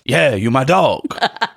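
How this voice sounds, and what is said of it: Good DMX impression. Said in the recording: “That was a really good impression of him.”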